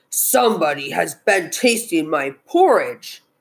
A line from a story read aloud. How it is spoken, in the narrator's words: said the great big bear in his great big voice